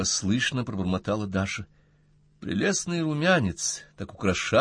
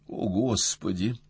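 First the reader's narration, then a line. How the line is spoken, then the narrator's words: Pleading. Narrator (Russian): взмолилась Настя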